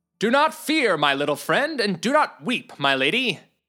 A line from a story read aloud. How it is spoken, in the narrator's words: Sir Morgan de Dunstan shouted down to her and to Algarog